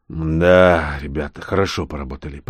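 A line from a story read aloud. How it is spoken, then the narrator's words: Grumbling. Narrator (Russian): проворчал я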